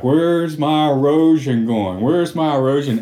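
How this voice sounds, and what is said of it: Forrest Gump impression. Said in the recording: “we're supposed to be like Forrest Gump ... So I'm doing that voice.”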